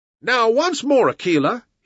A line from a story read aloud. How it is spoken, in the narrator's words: he cried